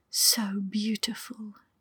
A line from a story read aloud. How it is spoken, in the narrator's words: she whispered